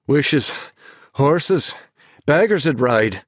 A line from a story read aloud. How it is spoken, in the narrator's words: he panted back, grinning in spite of his own weariness